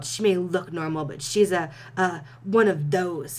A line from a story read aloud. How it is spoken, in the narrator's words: his father sputtered